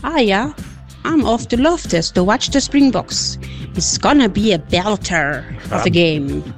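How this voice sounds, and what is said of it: Attempted Scottish accent. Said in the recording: “your best Scottish accent”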